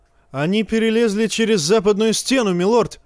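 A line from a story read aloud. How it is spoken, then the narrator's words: Straining shout. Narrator (Russian): крикнул старому медведю Торрен Смолвуд, с трудом удерживая на месте коня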